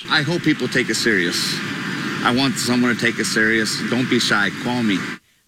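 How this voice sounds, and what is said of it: Wisconsin accent. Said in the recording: “Oh, that Wisconsin accent.”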